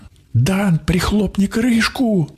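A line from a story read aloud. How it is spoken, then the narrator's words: Shout. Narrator (Russian): крикнула Донь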